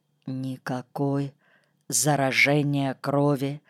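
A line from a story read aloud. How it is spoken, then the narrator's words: Whisper in ear. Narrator (Russian): шепнул на ухо Ситникову Абрам Львович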